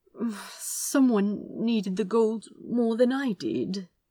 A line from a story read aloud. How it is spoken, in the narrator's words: he mumbled again